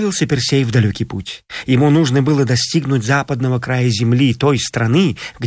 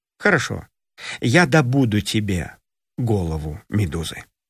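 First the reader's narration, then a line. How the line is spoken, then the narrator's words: Calm reply. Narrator (Russian): Персей спокойно ответил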